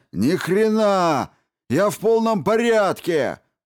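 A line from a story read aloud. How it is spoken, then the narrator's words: Yelled. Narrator (Russian): заорал он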